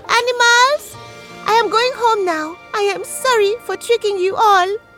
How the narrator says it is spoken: he called out

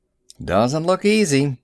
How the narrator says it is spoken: he grunted

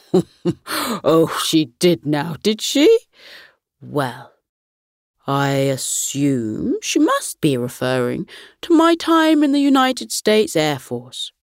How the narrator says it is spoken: Grandpa Gus chuckled and replied

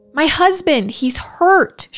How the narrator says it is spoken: she screamed through the front door

